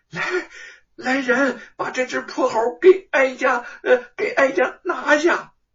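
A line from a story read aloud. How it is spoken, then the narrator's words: Ashamed, angry shout. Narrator (Chinese): 西宫娘娘又羞又怒，就喊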